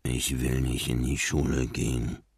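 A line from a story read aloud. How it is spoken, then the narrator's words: Mumbled. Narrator (German): nuschelte Marlin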